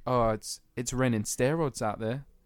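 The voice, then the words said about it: Poor attempt at northern English accent. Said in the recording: “your accent was terrible ... I had to do a northern accent ... It was honestly trash”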